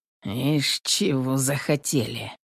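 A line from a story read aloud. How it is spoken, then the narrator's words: Muttering. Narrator (Russian): Пробормотал Петр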